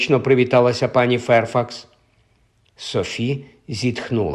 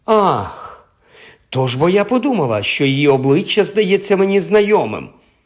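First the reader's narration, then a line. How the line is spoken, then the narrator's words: Exclaiming. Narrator (Ukrainian): вигукнула пані Ферфакс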